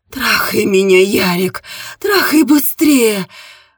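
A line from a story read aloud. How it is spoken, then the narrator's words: Muffled shout, woman. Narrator (Russian): приглушенно закричала она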